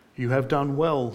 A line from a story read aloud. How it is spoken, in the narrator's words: said Greatheart